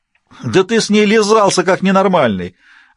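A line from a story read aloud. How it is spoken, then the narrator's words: Loud laughter. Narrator (Russian): расхохотался Дантес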